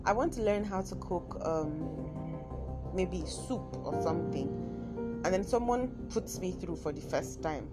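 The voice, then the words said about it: Nigerian accent. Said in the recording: “My Nigerian accent, I mean my Kaduna accent comes in once in a while.”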